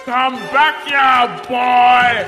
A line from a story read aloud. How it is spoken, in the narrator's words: roared